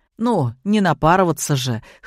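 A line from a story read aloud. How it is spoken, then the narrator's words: Snorting. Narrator (Russian): хмыкнул Демид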